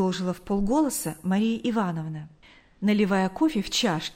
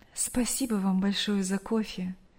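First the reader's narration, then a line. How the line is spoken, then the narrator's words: Sighing. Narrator (Russian): вздохнув, сказала мать Брюса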